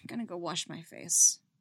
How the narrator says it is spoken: she mutters

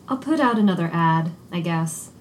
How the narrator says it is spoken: Poe had finally sighed and said

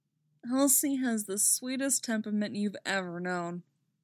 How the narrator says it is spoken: he says wistfully

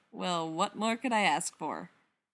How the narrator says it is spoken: Spencer says, as dryly as she can

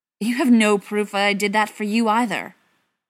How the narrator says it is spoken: John spat

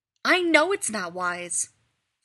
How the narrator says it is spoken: Rodney snaps

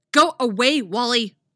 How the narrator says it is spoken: Zatanna snaps

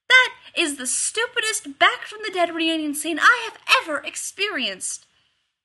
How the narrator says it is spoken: Rodney yelled down the gorge

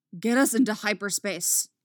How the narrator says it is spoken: Dooku snaps

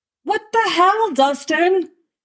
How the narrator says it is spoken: Steve shouts

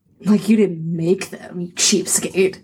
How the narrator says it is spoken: Phoenix muttered

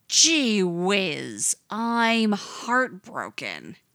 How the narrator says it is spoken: he had sneered

